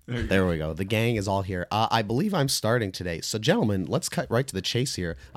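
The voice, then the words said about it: Slightly sick, rough voice. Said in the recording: “I'm slightly sick, I think. Yes, my voice sounds a little shitty.”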